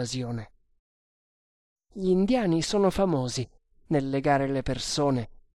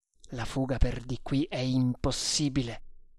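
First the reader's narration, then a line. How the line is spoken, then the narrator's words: Murmur. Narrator (Italian): mormorò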